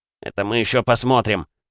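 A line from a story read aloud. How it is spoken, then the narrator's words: Muttered. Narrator (Russian): бормотал он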